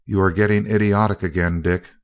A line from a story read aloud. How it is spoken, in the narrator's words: Crane rejoined calmly